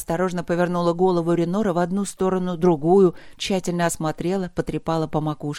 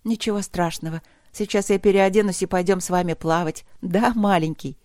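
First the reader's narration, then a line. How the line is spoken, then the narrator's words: Laughing. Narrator (Russian): рассмеялась она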